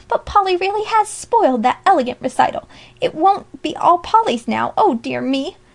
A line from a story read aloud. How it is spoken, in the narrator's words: mumbled Alexia